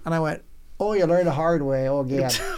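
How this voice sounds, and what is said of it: Put-on Upper Midwest accent. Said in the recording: “That was a good accent. ... that's the Upper Peninsula. ... Wisconsin mixed with Irish. ... It's Fargo.”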